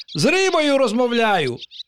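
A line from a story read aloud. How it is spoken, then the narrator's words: Exclaimed. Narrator (Ukrainian): вигукнув пустомелик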